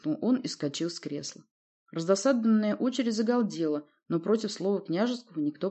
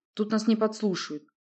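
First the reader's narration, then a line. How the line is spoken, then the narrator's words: Tense voice. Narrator (Russian): проговорил он напряженным голосом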